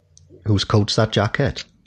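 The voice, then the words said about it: Put-on Welsh accent. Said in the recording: “My wife does a very good Welsh accent ... she can only say one sentence, but it's brilliant ... That's very good”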